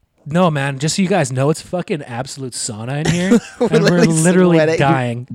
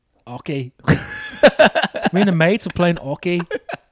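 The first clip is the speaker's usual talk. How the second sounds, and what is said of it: Put-on Irish accent. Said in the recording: “sounds like an Irish guy saying hockey”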